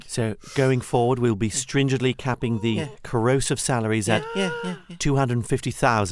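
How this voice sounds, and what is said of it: Reassuring regional accent. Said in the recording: “his lovely reassuring accent”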